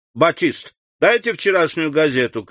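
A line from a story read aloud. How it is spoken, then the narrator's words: Shouting. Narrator (Russian): крикнул Бошан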